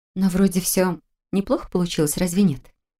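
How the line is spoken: Gentle question. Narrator (Russian): мягко уточнила

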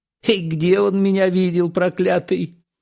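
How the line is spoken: Giggling old woman. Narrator (Russian): хихикнула бабушка

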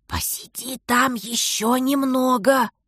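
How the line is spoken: Hissed. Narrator (Russian): прошипел брат

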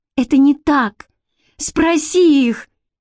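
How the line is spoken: Hysterical cry. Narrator (Russian): истерически вскрикнула Бренна

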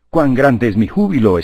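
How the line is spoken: Exclaimed. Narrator (Spanish): exclamó Laertes

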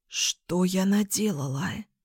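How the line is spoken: Hoarse blurt. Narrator (Russian): выронила я хрипло

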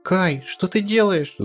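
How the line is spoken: Girl screaming. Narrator (Russian): закричала девочка

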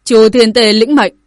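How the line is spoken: Loud shout. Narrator (Vietnamese): lớn tiếng quát

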